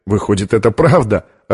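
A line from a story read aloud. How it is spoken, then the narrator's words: Laughing. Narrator (Russian): рассмеялся он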